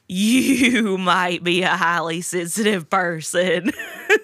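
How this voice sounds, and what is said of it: Imitates another person's voice. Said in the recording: “my Jeff Foxworthy impression really good? It's really good ... It is really, really good.”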